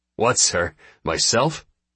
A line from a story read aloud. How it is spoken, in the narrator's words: sputters Chindelin